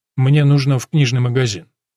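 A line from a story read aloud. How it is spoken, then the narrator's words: Casual matter-of-fact tone. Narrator (Russian): говорит будничным тоном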